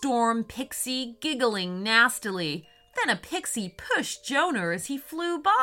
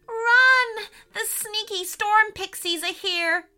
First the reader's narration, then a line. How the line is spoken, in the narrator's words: shrieked the magical animals